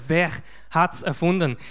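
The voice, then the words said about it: Put-on Swiss German accent, not great. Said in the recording (German): “In dem besten schweizerischen Akzent, den ich hinkriege. Ja, so gut ist der nicht.”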